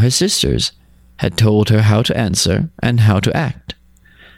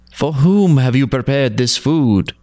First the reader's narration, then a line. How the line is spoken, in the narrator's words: asked in a sweet voice